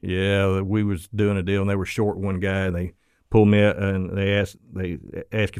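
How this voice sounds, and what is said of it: American southern accent. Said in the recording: “me with my southern accent”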